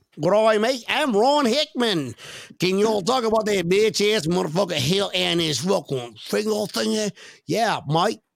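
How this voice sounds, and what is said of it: Imitates another person's voice. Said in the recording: “This is ... real accent ... this is the true Christian Wade accent”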